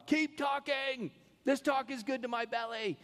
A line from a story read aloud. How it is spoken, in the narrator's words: they would just yell out